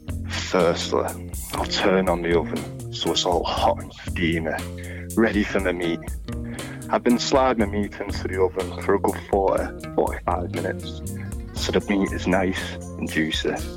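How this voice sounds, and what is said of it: Put-on sexy voice, bad impression. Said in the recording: “this voice you're doing, is this your sexy voice?... It's like a really bad Nigella Lawson.... You think Nigella sounds like that.”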